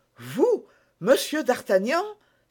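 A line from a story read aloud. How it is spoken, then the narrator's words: Terrified cry. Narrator (French): s'écria Grimaud épouvanté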